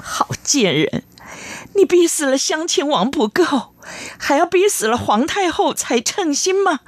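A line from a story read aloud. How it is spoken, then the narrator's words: Crying, scolding. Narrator (Chinese): 哭骂着说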